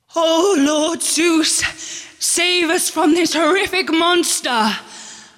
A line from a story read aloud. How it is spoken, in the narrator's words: The Greeks wailed